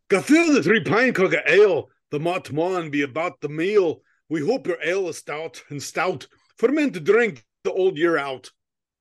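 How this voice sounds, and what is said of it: Thick Scottish Highlander accent. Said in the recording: “my best thick Irish brogy Highlander accent”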